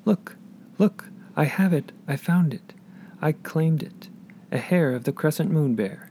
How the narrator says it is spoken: she cried

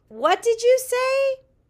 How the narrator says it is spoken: shouted Tall

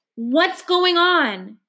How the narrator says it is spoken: bellows

